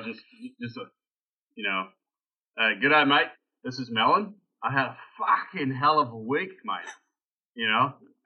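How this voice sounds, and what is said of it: Put-on Australian accent. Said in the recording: “Give us your Australian accent.”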